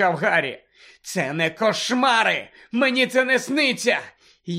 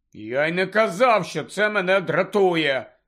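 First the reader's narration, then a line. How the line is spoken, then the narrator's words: Angry. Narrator (Ukrainian): сердито відповів Рон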